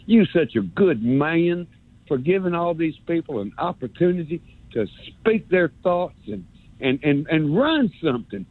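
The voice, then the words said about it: Put-on North Alabama accent. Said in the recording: “I love this North Alabama accent thing. I'm going to do it again.”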